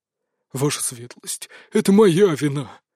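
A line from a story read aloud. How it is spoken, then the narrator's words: Sudden remorseful snort. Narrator (Russian): вдруг раскаянно хмыкнул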